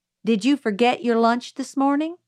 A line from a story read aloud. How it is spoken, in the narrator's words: asked Miss Caroline